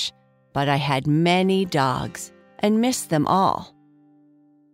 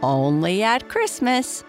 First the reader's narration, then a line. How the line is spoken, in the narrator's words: Grandpa George said, laughing